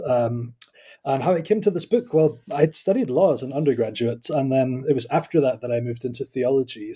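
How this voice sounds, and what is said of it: Scottish accent. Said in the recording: “I am Scottish, as you can probably tell by my accent.”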